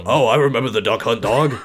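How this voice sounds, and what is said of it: Imitates another person's voice. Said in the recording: “Damn, that's a good impression.”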